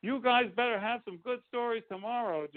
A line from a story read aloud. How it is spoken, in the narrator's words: Johnny shouted